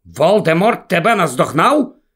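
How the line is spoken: Sharp question. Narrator (Ukrainian): різко перепитав Люпин

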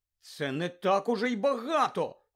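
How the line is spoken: Exclaimed indignantly. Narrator (Ukrainian): вигукнула обурено Герміона

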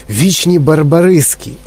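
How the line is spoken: Proud exclamation. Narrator (Ukrainian): гордо вигукнув містер Вонка

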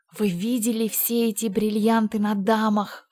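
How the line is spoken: Sighing. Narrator (Russian): вздохнула Джейн

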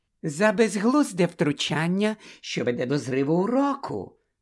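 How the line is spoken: Silky explanation. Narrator (Ukrainian): шовковим голосом пояснила професорка Амбридж

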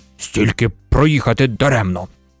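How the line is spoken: Displeased grumble. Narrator (Ukrainian): невдоволено буркнув начальник поїзда

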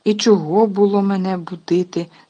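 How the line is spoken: Grumpy grumble. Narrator (Ukrainian): сварливо буркнула

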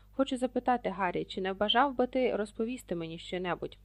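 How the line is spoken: Gentle. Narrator (Ukrainian): сказав він лагідно

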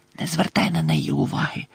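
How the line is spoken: Whispered. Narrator (Ukrainian): прошепотіла Чо

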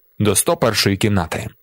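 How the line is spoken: Plain. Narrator (Ukrainian): сказав він

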